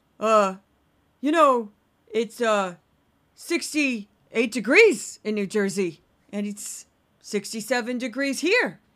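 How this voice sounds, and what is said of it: Imitates another person's voice. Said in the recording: “my best Brian Kilmeade impression”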